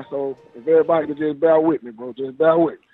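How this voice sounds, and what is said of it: Hoarse voice. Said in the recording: “I'm a little hoarse right now, man, because I had 3 studio sessions this week, man. So I'm a little hoarse right now.”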